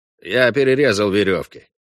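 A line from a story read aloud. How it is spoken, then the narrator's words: Even, level voice. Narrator (Russian): ровным голосом сказал Иланд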